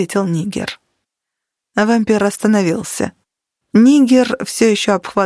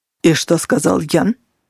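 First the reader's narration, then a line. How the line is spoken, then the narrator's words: Harsher questioning tone. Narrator (Russian): спросил Блэк Джек уже более жестким тоном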